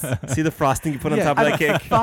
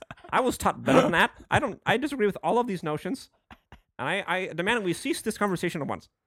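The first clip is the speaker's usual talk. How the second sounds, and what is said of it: Imitates another person's voice. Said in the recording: “my impression of SuperDick.”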